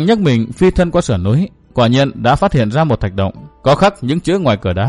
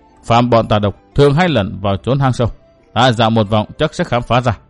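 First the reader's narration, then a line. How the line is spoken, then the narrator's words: Muttering. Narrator (Vietnamese): Trường Hận lẩm bẩm nói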